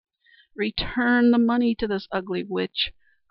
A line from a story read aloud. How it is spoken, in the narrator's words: groaned the unfortunate wife